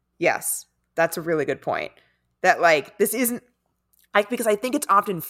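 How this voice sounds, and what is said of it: Usual voice. Nothing is said of it.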